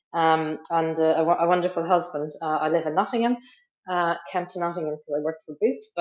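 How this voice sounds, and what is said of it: Irish accent. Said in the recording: “as you can maybe tell from my accent, I'm originally from Ireland, from the west coast of Ireland”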